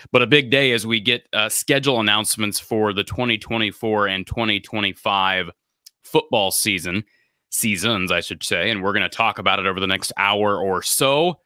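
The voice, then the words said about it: Nasal, congested voice. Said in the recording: “I'm still slightly under the weather, so bear with me in my nasal voice today. Early summer cold”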